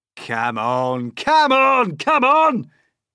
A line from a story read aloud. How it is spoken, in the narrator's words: shouted the centipede